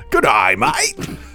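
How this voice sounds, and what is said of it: Put-on Australian accent, not good. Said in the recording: “your Australian accent ... Not bad, actually ... It was not good.”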